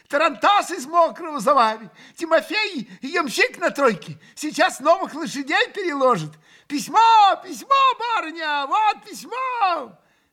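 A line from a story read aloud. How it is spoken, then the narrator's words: Shouting. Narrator (Russian): кричала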